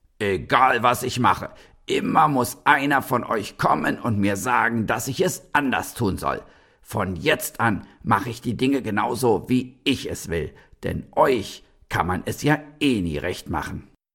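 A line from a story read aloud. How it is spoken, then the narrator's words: Furious old man bellowing. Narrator (German): Da platzte dem Opa aber endgültig der Kragen und er fing selbst an zu brüllen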